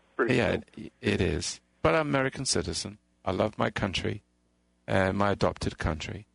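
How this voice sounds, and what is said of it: Elegant British accent. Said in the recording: “very elegant and obviously British”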